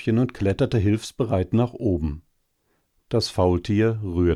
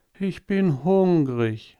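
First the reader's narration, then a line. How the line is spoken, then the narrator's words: Sighing. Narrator (German): sagte es und seufzte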